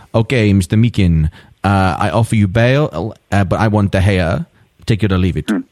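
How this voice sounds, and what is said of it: Put-on Spanish accent. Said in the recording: “That's my Spanish accent, everybody.”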